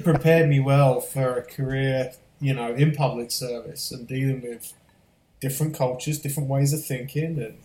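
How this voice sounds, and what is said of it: Diluted British accent, mid-Atlantic. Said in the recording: “the diluted drive-through accent I now have ... This accent doesn't belong anywhere now ... It belongs somewhere in the middle of the Atlantic Ocean ... people back in the UK ... make fun of how I talk ... the majority of people think I'm Australian”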